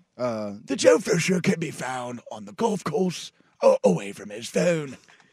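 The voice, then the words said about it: David Attenborough-style British narrator voice. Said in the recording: “I think I'm going David Attenborough. ... You know, the animal documentaries? ... Anybody with like a British, you know, accent just sounds classy.”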